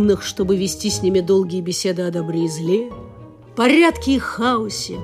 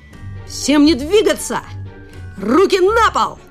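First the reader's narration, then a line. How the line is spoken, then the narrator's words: Boy shouting. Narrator (Russian): закричал мальчик с порога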